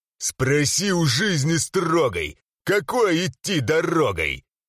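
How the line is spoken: Growled. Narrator (Russian): прорычал

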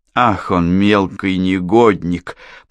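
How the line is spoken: Hissed through clenched teeth. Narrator (Russian): процедила она сквозь стиснутые зубы

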